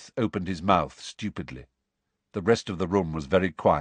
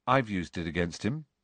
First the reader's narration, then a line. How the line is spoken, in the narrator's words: said Harry quietly